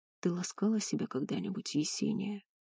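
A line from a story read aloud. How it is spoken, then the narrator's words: Hoarse question. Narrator (Russian): хрипло спросил барон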